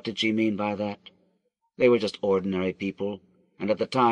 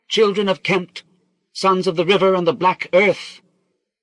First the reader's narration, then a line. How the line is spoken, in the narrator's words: cried